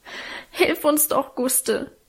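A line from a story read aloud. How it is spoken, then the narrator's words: Sobbing. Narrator (German): schluchzte Alvine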